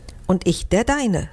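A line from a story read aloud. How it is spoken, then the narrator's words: Plain. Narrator (German): sagte Fido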